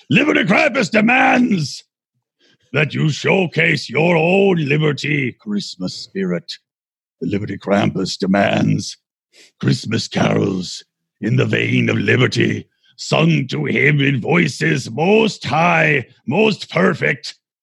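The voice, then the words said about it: Strained Yoda-like Krampus character voice. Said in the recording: “Why does Krampus sound like Yoda half the time? ... Baby Yoda? ... doing this voice. It hurts his voice, his throat.”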